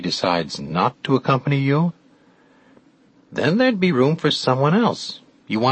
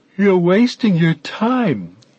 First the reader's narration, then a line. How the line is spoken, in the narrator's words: he said, yawning